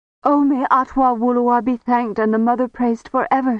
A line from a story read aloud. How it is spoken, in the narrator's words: cried